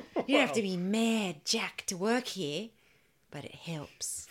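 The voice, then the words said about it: Poor put-on Australian accent. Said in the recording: “It sounds better in an Australian accent. ... That's not really a good Australian accent. That's a terrible Australian accent.”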